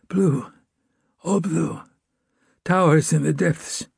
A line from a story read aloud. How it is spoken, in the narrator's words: said, in a whistling whisper